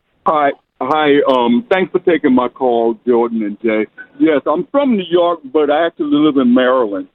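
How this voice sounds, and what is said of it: New York accent. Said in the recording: “you sound like a New Yorker”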